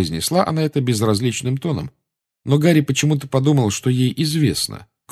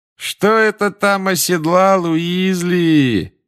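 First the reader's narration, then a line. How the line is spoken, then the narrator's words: Mocking sing-song. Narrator (Russian): насмешливо пропел Малфой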